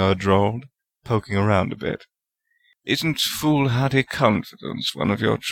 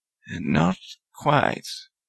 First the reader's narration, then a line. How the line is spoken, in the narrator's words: Salazar said slowly, his voice full of disbelief